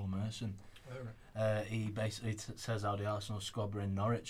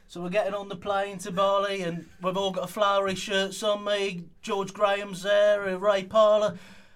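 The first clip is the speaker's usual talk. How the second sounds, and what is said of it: Paul Merson impression, bit Harry Redknapp. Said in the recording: “do his accent ... Go on, do his accent ... Is that Harry Redknapp? ... It was a bit of Harry Redknapp”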